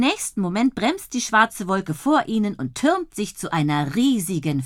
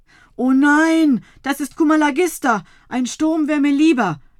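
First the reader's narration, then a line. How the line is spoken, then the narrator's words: Groaning. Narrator (German): stöhnt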